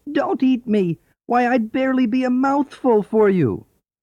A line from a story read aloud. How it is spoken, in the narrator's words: squeaked the mouse